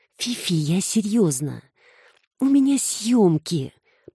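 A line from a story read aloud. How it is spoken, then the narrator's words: Moaned. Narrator (Russian): простонала Саша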